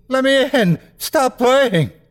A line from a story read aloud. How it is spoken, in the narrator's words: He's screaming